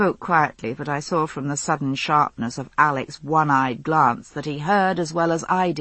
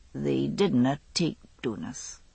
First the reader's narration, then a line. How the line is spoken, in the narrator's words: he said quietly